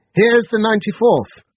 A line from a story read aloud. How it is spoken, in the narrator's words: halfway up I called out